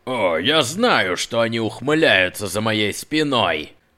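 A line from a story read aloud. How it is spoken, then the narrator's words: Grumbled. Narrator (Russian): Проворчал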